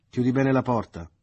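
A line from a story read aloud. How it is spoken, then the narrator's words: Shouting. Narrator (Italian): le gridò Leo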